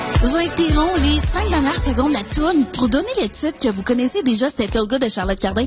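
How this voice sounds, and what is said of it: Quebec commercial radio host voice. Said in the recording (French): “elle fait des imitations des radios commerciales québécoises et françaises ... une imitation d'une radio commerciale québécoise”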